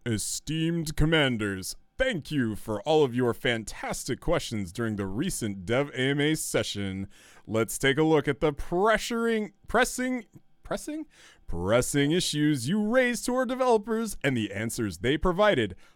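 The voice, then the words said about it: Mock announcer voice. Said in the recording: “announcer voice”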